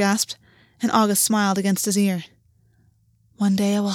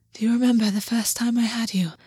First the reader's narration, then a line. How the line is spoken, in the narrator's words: August breathed